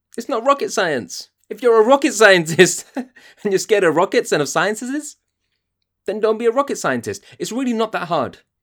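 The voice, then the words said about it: High-pitched angry voice. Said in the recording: “My voice is going so high, I'm so angry.”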